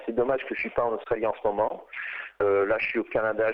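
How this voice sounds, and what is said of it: French-Australian accent. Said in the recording (French): “on l'entend dans votre accent franco-australien”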